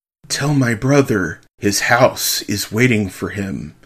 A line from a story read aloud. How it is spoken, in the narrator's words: Mary whispered